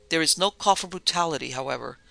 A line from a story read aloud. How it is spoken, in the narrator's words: exclaimed the convict